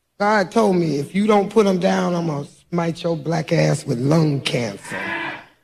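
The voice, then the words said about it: Smoker's rough voice. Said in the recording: “I smoke cigarettes. You probably can hear it in my voice.”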